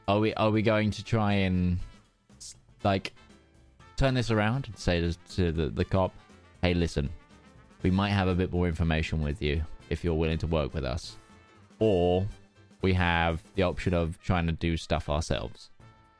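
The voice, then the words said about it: British English accent. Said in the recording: “why is your accent not American? ... anymore? ... you went back from an English accent ... I've gone back to being British.”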